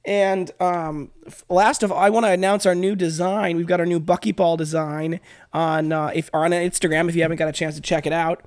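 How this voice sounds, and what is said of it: Congested voice with a cold. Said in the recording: “my voice sounds. I have a bit of a cold”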